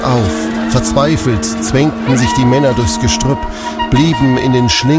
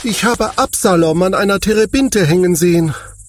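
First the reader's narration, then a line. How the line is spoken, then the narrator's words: Called out. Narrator (German): rief er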